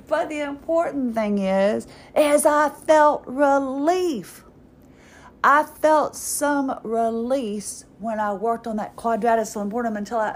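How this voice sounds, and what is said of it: Speaking with a twang. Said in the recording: “I think I have a little bit more of a twang. I never thought I had an accent ... I'm just plumb tired ... I think I have more of a twang now that I hear myself”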